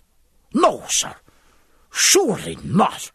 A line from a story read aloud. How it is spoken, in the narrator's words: said Dillon, angrily